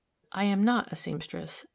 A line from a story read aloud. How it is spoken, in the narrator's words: she said quietly